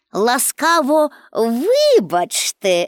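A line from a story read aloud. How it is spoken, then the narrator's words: Laughing. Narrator (Ukrainian): засміялася вона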